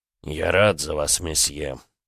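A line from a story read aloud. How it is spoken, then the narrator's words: Through gritted teeth. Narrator (Russian): процедил Багратион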